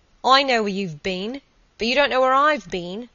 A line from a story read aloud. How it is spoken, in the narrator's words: exclaimed, with peals of laughter